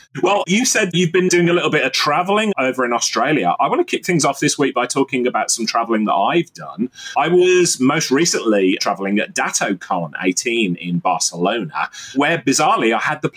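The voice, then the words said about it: Attempted Australian accent. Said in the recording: “try for an Australian accent”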